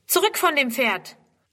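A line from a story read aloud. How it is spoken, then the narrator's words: Teacher calling out. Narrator (German): Die Lehrerin ruft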